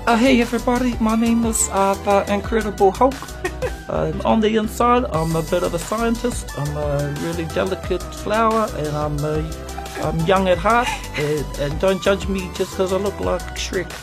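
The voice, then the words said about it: Character voice impression. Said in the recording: “that was my impression of Hulk doing an impression of Korg”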